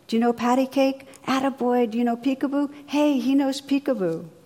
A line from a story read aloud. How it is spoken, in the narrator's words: the old bum was shouting from across the room